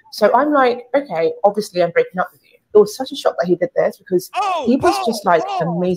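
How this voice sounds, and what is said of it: British accent. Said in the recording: “Is that her real accent? ... Yes, she's from the UK.”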